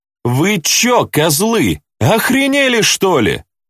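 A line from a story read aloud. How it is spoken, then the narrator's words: Shouting young woman. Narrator (Russian): закричала девка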